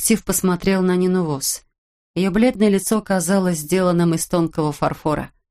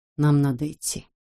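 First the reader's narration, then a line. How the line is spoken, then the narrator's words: Quiet. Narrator (Russian): тихо сказал Каска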